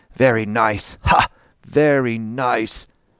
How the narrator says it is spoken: terribly angry repeated while they laughed

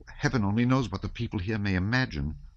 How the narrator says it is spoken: muttered Telyanin

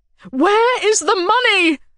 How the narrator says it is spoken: she cried again

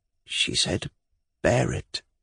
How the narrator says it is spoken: Liza said, still more softly

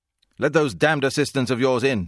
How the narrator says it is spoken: shouted

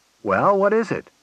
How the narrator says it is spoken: said Collins cheerfully

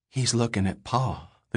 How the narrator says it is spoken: the girl breathed

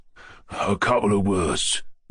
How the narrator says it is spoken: whispered another voice in Mushkin's other ear

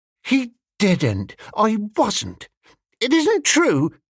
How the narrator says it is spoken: cried Molly

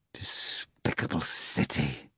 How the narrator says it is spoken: the procurator suddenly muttered out of nowhere

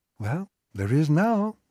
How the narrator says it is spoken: said sweetly

